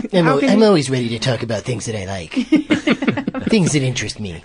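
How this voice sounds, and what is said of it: Imitates another person's voice. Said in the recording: “That's a good imitation of him. ... it's a little Vincent Price-y ... It's a little like Bill Hader doing Dana Gould doing Vincent Price.”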